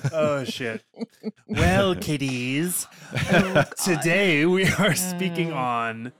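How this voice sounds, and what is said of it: Crypt Keeper impression. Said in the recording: “crypt keeper ... You guys do a better voice than I do.”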